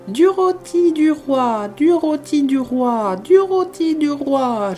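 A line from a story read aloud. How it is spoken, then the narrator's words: Hurried terrified parrot squawk. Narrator (French): gémit précipitamment le pauvre cacatoès, de plus en plus épouvanté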